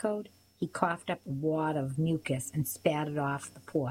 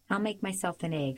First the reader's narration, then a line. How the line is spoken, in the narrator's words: I said quickly